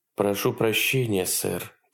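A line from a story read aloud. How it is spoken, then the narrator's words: Quiet speech. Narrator (Russian): тихо произнесла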